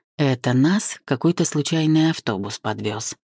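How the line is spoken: Quiet but clear, man. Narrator (Russian): Страшноватый человек тихо, но внятно сказал

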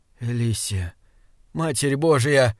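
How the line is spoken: Said hoarsely. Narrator (Russian): хриплым голосом сказал Саймон

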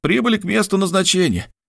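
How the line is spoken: Young man's exclamation. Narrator (Russian): воскликнул молодой мичман

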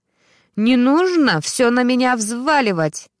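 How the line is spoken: Loud indignation. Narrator (Russian): громко возмущалась Ксюша

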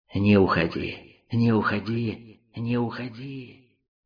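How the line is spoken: Enchanting coaxing voices. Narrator (Russian): Шипение незаметно переросло в чарующие голоса, уговаривавшие его остаться

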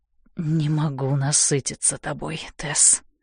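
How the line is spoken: Passionate hoarse voice. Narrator (Russian): страстно хрипит он

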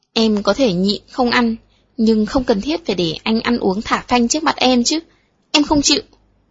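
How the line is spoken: Sulky, resentful. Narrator (Vietnamese): Phùng Hy hậm hực nói

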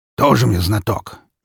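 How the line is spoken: Displeased snort. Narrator (Russian): недовольно фыркнул он

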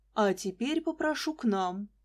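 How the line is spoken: Solemn. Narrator (Russian): Светлана Аркадьевна торжественно сказала

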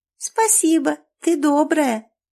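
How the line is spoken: Squeaky little girl. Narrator (Russian): пискнула девочка

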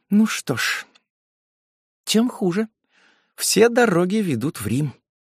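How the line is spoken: Undertone. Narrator (Russian): она проговорила вполголоса

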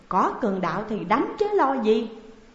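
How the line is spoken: Smiling. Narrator (Vietnamese): Lã Mai Nương mỉm cười

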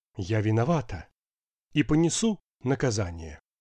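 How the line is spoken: Quiet firm theatrical voice. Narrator (Russian): немного артистически рисуясь, но тихим и твердым голосом добавила

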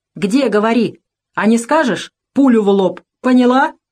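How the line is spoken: Sudden shout. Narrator (Russian): закричал вдруг

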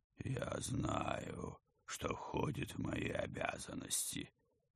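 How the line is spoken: Dry creaking ghost voice. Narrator (Russian): сухо проскрипел призрак

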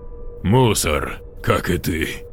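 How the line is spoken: Chuckling. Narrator (Russian): Джейк хохотнул

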